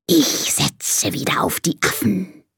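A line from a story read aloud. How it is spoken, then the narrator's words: Hissing snake. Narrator (German): zischt die Schlange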